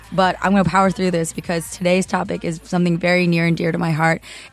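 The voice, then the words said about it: Hoarse, recovering voice. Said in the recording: “My voice has been gone since my birthday, which has been like 3 weeks, but I still haven't fully gotten it back.”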